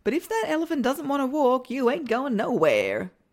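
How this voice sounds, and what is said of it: Briefly puts on an accent. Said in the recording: “I was just going with the accent there.”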